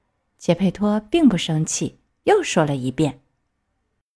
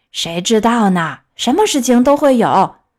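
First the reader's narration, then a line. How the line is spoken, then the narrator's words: Shouting puppet. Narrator (Chinese): 木偶叫道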